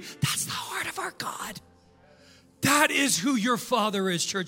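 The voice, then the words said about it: Yelling, loud preaching voice. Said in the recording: “why are you yelling”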